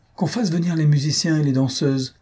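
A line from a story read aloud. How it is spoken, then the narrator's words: Troubled exclamation. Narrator (French): s'écria-t-elle d'une voix troublée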